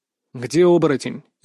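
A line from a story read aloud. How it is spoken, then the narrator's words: Sharp question. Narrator (Russian): резко спросил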